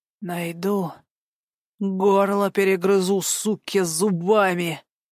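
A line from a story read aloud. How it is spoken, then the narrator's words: Hoarse hateful wheeze. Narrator (Russian): просипел Гарик, ощущая, как ненависть возвращает его к жизни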